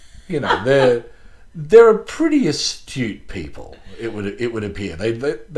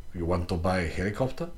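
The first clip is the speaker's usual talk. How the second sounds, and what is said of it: Put-on Russian accent. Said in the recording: “That's my accent... chillingly authentic”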